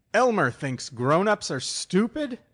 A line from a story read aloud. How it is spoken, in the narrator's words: I howled